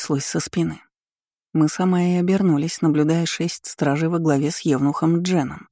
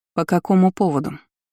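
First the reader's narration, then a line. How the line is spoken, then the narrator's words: Cold question. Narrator (Russian): холодно спросила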